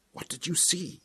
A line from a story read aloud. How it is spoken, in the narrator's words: whispered